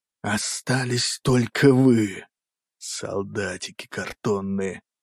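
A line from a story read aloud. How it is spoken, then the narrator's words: Hiss. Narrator (Russian): прошипел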